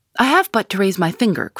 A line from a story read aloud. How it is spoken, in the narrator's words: cried McGinty